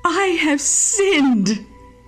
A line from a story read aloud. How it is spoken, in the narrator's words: again cried Judas